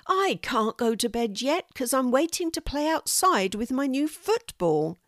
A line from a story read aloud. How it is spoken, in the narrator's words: cried